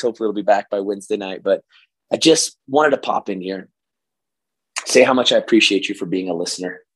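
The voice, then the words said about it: Hoarse voice. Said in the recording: “my crazy hoarse voice”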